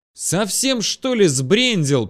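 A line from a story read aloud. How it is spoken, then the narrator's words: Yelling over howling wind. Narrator (Russian): перекрывая свист ветра, который нес острые, как стекло, крупинки снега, заорал я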